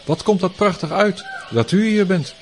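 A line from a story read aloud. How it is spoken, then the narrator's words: Exclamation. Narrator (Dutch): riep uit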